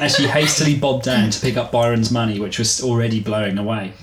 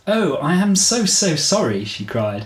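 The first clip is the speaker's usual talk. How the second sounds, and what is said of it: Very British English accent, Emma Thompson. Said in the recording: “She's English. ... And Emma Thompson. ... Very, very British.”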